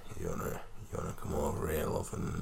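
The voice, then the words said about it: Sultry, very deep character voice. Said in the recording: “he's got a sultry, deep, deep voice.”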